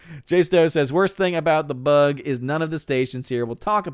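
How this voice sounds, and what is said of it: Usual voice. Nothing is said of it.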